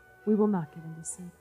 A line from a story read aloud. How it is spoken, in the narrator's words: The maples and poplars whispered to each other